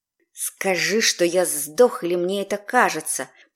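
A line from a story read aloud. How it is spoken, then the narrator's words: Hissing. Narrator (Russian): прошипел Вал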